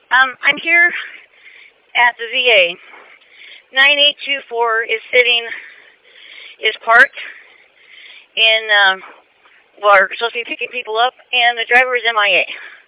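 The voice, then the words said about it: Out of breath, panting speech. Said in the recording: “I'm a little out of breath.”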